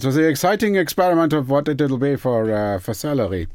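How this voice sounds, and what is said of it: Put-on professor-like voice. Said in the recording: “I did the accent. ... it's not the salary voice. ... It's just the salary voice. ... it's the professor.”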